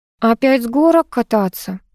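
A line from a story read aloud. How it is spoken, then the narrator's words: Weary grimace. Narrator (Russian): устало скривилась Вера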